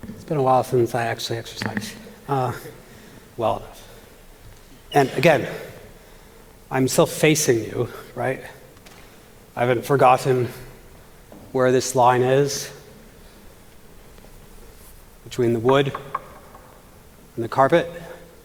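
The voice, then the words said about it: Out of breath. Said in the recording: “I am a little bit out of breath”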